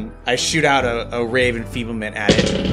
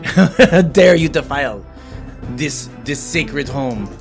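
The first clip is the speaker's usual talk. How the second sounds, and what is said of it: Put-on accent for a character. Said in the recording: “I get my accent wrong.”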